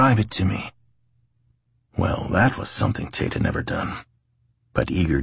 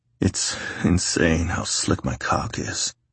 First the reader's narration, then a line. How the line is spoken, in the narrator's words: Tate muttered absently